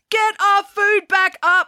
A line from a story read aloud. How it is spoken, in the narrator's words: screamed Jessica